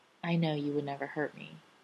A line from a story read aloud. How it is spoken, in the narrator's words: John say softly into the scant space between them